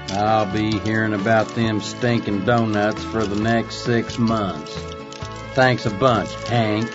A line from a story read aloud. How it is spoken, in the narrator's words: he was muttering under his breath